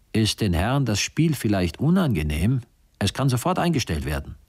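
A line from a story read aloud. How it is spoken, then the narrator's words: Father calling out. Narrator (German): der Vater rief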